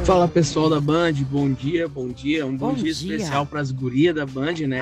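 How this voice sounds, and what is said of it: Porto Alegre regional accent. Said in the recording (Portuguese): “tem um sotaque diferente ... É Porto Alegre!”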